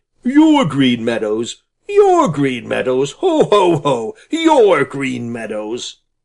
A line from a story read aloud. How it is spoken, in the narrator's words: The stranger laughed an unpleasant laugh